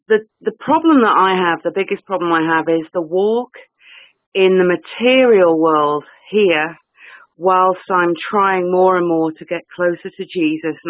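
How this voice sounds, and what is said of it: English accent. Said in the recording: “I do detect an accent. ... I'm in England.”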